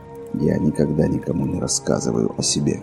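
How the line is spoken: Muttered. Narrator (Russian): пробормотал стрелок

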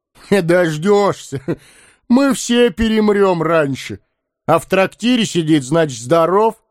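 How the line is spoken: Loud laughing. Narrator (Russian): Захохотал Лаган

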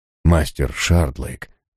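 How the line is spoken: Muttering. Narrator (Russian): бормочет он

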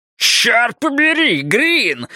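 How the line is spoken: Howling. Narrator (Russian): взвыл Хейзлтон

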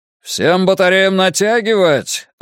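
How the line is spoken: Yelling. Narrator (Russian): орал Нит и Сефни

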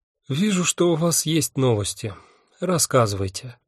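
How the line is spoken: Tired demand. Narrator (Russian): потребовала Афина, устало

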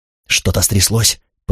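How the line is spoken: Whisper. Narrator (Russian): прошептал Карл

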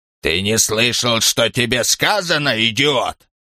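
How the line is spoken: Imperious, threatening growl. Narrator (Russian): Старик подался к стоявшему в дверях человеку, властно и угрожающе, напоминая старого, гордого, рычащего пса

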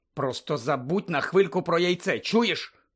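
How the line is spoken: Hissed. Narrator (Ukrainian): прошипів Гаррі

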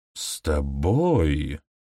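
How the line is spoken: Drawling. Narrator (Russian): протянула Танит

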